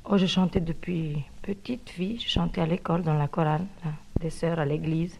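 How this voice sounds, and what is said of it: Foreign accent speaking French. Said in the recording (French): “Il y a évidemment une petite particularité dans sa voix. A-t-elle réussi malgré cet accent ou à cause de lui?”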